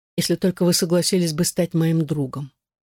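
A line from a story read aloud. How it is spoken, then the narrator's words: Hesitant, then quick. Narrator (Russian): Она запнулась и быстро проговорила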